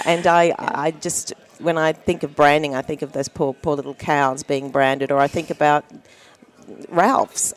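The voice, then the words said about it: Deliberately bad American accent. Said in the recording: “a simple Australian woman here ... trying to do a really bad American accent here”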